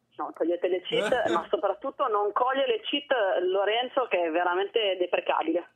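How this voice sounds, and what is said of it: Put-on Swedish accent. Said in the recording (Italian): “Faccio l'accento svedese.”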